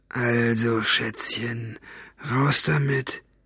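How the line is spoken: Menacingly calm voice. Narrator (German): sagte er mit bedrohlich ruhiger Stimme

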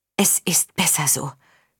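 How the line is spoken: Whispered. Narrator (German): flüsterte Violante

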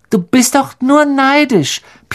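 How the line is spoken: Squeaky small voice. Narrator (German): piepste Colin, dessen ganzer Körper etwa so dick war wie Crabbes Hals

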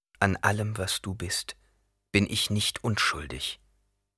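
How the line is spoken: Plain. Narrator (German): sagte Jessica

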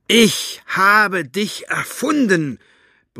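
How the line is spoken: Roar. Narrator (German): brüllte er

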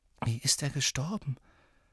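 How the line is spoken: Whisper. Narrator (German): flüsterte Tonks

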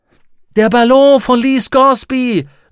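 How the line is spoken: Joyful cry with clapping. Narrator (German): rief und klatschte vor Freude in die Hände

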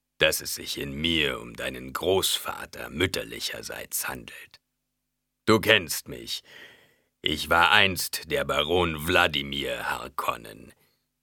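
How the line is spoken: Low grumbling voice. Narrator (German): brummte die Stimme

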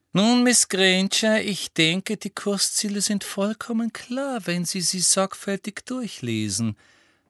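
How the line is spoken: Exquisitely sweet voice. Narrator (German): sagte Professor Umbridge mit ausgesucht liebenswürdiger Stimme

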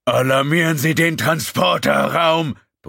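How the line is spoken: Bellowed. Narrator (German): brüllte er

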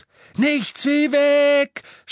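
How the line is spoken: Shout. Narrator (German): schrie Harry

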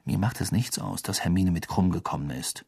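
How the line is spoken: Quiet. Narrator (German): sagte Harry leise

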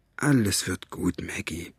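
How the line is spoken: Low murmur. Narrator (German): raunte er ihr zu

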